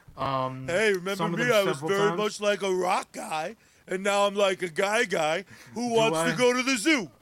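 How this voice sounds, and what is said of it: Imitates another person's voice. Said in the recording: “The worst part of your fandom of Sly Stallone is that accent.”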